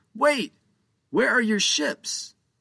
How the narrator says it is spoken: Captain Joe shouted desperately

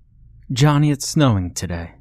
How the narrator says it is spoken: she says

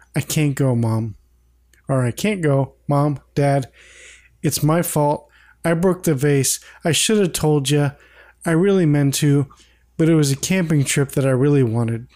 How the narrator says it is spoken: Peter sadly says

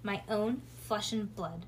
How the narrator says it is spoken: muttered Bean

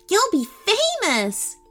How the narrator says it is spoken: gasped Tenley

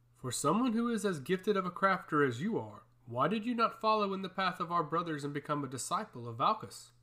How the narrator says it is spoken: My younger brother chuckled

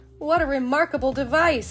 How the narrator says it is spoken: he cried

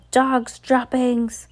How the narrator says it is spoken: yell

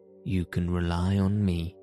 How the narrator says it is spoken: said Raoul

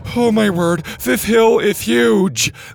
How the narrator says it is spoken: Mac groaned, huffing and puffing his way up the slope

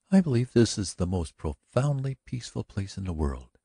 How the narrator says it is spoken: she said quietly, half listlessly

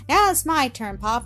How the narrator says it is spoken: Elsa said in a merry tone

